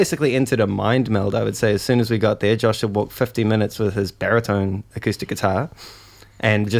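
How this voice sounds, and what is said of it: Usual voice. Nothing is said of it.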